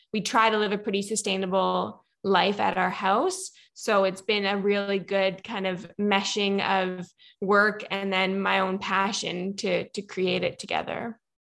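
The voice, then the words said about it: Slight Canadian accent. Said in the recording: “I can tell the little bit of a Canadian accent.”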